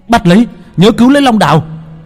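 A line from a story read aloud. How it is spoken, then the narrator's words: Yelling. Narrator (Vietnamese): Hắn hét lên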